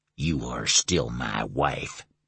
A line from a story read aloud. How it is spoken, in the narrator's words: he snarled